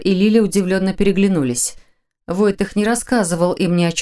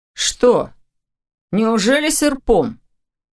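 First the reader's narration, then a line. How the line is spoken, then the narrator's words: Snort while chewing. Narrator (Russian): хмыкнул Ваня, уже что-то жуя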